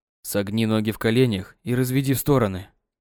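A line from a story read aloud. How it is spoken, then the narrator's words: Quiet. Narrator (Russian): тихо проговорил Кирилл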